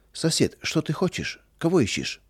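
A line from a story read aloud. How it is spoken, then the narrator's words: Calm puzzled question. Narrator (Russian): Трофим Семенович, ничего не понимая, спокойно спросил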